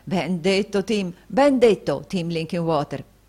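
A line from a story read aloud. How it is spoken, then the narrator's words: Joyful exclamation. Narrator (Italian): esclamò il fratello Carlo, appena meno lieto dello stesso Tim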